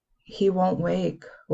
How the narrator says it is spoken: Willow said quietly

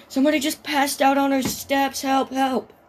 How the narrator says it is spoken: she screams to her mom

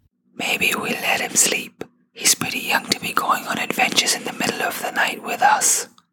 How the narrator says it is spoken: Baba whispered

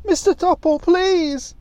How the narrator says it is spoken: she shouted

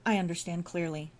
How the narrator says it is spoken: Diane said

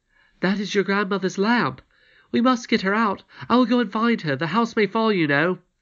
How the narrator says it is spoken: cried in some consternation

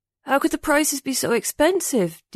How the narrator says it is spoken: Ding mumbled as he clutched his cheek

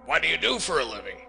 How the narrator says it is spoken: he sharply demanded

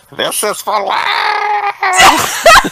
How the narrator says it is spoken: Goku screamed

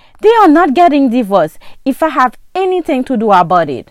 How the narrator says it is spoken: shouted

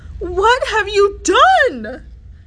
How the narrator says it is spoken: she cried

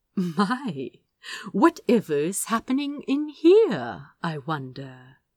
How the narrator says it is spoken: he purred

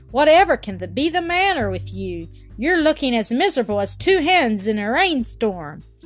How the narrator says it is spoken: Jean cried out from the top of the brae

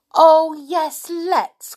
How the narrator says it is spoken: cried Rick

